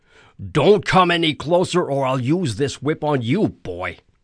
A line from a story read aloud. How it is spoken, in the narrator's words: he yelled